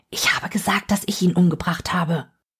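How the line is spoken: Whispered. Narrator (German): Sie flüstert ihm zu

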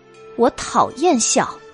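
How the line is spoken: Cold and gloomy. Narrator (Chinese): 太平公主神色阴沉，冷冷的说道

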